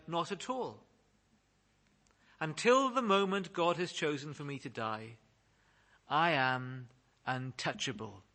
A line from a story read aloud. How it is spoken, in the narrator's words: he said